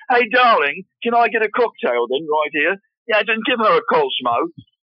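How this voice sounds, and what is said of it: Put-on English accent. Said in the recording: “I can do my English accent. It's absolutely wonderful. ... every time I go out, I talk like this.”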